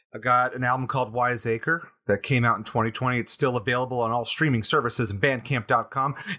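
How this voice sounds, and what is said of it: Professional promotional announcer voice. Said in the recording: “do my best plug voice ... Got more professional as I went. I had to get into the character.”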